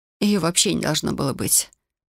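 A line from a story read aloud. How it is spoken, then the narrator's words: Tearful mumble. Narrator (Russian): пробормотала я, продолжая растирать слезы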